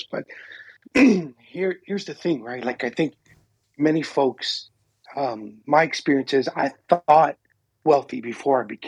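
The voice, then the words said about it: Slightly hoarse voice. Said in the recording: “I'm trying to get over a cough, so I sound a little hoarse.”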